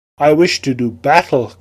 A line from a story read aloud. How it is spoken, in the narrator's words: cried Tsarkin Khan